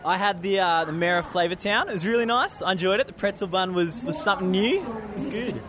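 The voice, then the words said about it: Australian accent. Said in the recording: “a friend from down under ... I just love the accent.”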